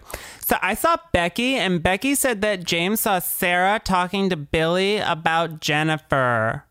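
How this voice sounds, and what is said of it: Imitated high school girl voice. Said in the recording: “That's a really good high school girl voice.”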